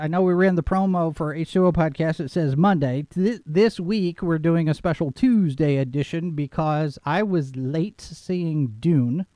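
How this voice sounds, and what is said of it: Slightly hoarse, froggy voice. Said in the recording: “I have a little bit of a frog in my throat ... My voice is a little different, she says. ... It doesn't sound normal.”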